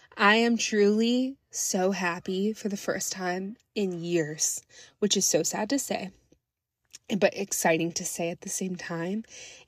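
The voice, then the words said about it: Choked-up, emotional voice. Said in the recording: “getting choked up.”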